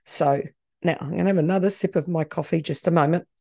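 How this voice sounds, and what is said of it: Strained voice, lower than usual. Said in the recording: “recovering from allergy, so my voice isn't great ... probably in a lower register than I should”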